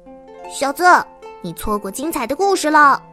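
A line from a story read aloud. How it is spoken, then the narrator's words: Loud shout. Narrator (Chinese): 那只兔子大声的喊道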